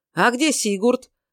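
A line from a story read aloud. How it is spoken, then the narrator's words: Old man shouting. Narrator (Russian): крикнул старый фермер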